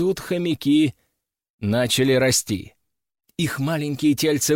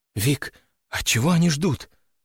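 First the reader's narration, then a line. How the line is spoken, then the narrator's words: Whispered. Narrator (Russian): прошептала Валерия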